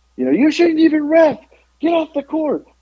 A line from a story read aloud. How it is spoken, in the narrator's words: screaming